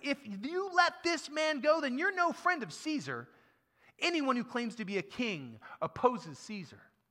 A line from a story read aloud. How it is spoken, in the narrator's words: the Jewish leaders kept shouting